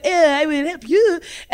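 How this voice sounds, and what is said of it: Put-on French accent. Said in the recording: “I really do think this one had a French accent”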